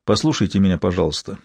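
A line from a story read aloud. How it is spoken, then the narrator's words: Gentle. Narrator (Russian): мягко промолвил Лэнгдон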